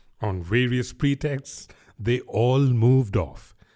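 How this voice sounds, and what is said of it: Usual voice. Nothing is said of it.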